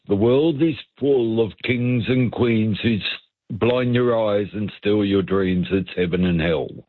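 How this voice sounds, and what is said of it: Deliberately bad British accent. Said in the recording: “In my worst British accent”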